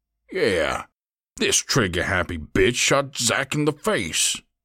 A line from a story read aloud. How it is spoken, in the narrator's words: Mosley snarled